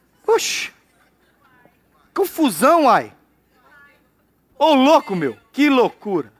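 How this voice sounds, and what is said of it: Mixed Brazilian regional accents. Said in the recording (Portuguese): “nem eu sei mais o meu sotaque”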